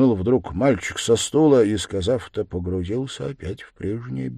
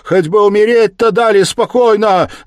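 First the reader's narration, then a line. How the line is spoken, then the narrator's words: Loud shout. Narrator (Russian): закричала она на всю толпу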